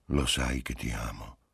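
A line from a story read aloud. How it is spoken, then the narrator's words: Murmured in her ear. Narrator (Italian): le mormorò all'orecchio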